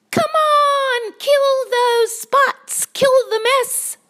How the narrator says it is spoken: yelled the cats

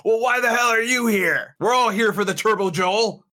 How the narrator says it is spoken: a few people that are around you who are yelling back at you

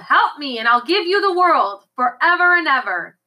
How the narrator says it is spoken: he yelled

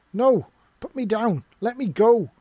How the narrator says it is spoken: yelled as she kicked and fought and bit for her life

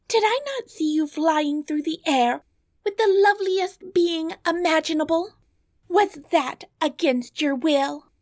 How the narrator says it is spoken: cried Bellissima

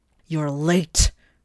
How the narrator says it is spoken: Morg roared

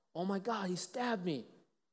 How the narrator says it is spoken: the moment he stabbed her, screamed out

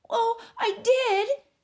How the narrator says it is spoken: she said angrily, almost tearfully

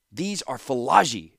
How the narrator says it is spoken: shouted Thanos

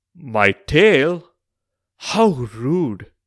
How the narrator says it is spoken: Uchai Shrivas exclaimed, in shock

